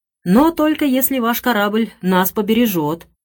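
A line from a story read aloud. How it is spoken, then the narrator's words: Cried out. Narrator (Russian): вскрикнула миссис Дэллоуэй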